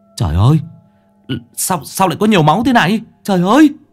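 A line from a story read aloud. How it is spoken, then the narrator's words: Panicked scream. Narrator (Vietnamese): Thằng Sáu hốt hoảng rú lên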